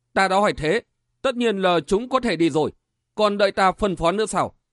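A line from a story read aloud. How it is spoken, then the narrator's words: Scoffing exclamation. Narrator (Vietnamese): Đại Lương hừ một tiếng thốt lên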